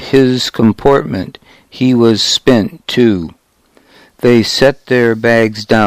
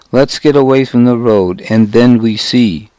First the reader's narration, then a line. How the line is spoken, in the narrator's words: Caesar said